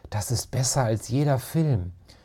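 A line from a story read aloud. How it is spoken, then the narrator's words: Whispered. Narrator (German): flüsterte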